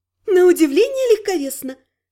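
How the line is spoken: Punning, laughing merrily. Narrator (Russian): скаламбурила, весело рассмеялась собственной остроте

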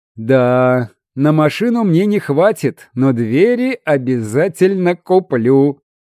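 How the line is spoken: Short laugh. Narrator (Russian): хохотнул он

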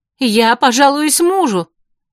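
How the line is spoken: Shouting. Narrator (Russian): закричала Корнелия

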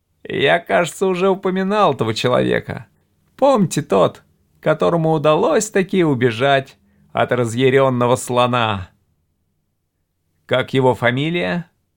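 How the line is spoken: Brash laughing speech. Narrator (Russian): Бесцеремонно хохотнув, Хартон сказал

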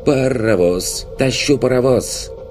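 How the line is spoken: Fairy shouting. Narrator (Russian): крикнула подлетевшая на форсаже фейка

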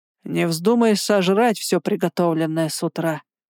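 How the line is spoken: Gloomy. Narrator (Russian): мрачно сказал Бестваж

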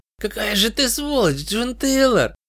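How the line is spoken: Hoarse rasp breaking into giggles. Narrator (Russian): прохрипел мертвец, но не удержался и глупо захихикал, испортив драматический эффект

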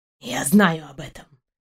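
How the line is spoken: Quiet reply. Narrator (Russian): тихо ответил пес

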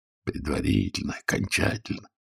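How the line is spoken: Barely audible angry mutter. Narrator (Russian): пробурчал еле слышно, но сердито Пантелеев

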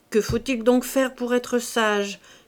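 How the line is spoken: Desperate moan. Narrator (French): gémit désespérément Chantot

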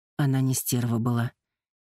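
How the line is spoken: Gentle objection. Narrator (Russian): мягко возразил Керт

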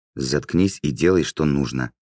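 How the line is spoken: Angry hiss. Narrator (Russian): злобно прошипела Таала

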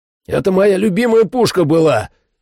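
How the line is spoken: Shout. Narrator (Russian): крикнул

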